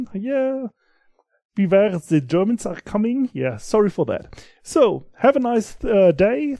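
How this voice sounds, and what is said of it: German-accented English. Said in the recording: “my very good sound and accent from the German”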